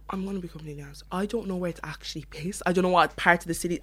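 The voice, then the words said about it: Strong North Cork Irish accent. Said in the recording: “what exactly is a North Cork accent? ... my accent, a lot of people think my accent is fake. It's not really. Like, I speak like this at home. ... this is my actual accent. So I just kind of emphasize it a lot more.”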